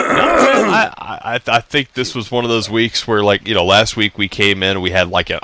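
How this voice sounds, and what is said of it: Usual voice. Nothing is said of it.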